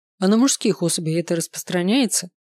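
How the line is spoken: Amused snort. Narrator (Russian): хмыкнул Дэн

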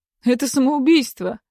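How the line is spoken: Wry snort. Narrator (Russian): хмыкнул Строев

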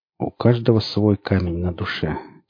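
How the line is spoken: Quiet. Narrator (Russian): тихо сказал сталкер

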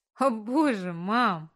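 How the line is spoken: Laughing. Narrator (Russian): хохотнула я

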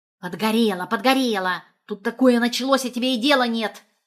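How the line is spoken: Annoyed barking. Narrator (Russian): Недовольно рявкнула в ответ

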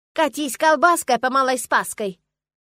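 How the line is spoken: Yelling. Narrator (Russian): заорала

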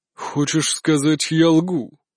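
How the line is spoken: Menacing, threatening. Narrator (Russian): Грозно нахмурился Николай VI

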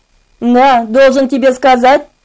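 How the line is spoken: False tone. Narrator (Russian): говорил он прежним фальшивым тоном

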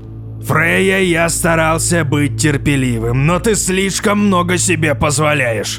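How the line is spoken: Menacing, through teeth. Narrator (Russian): грозно процедил Вотан

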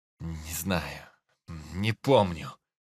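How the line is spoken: Weary groaning old man. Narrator (Russian): простонал дед, которого все эти бессмысленные расспросы сильно утомили

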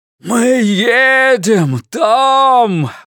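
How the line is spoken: Roar. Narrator (Russian): проревел он

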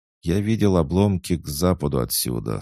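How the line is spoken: Calm reply. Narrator (Russian): спокойно ответил Анвар

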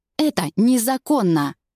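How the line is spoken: Angry bark. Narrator (Russian): Сердито рявкаю

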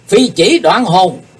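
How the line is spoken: Sudden thunderous shout. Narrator (Vietnamese): Kiếm khách Phạm Thiên Hòa bỗng quát to tợ sấm

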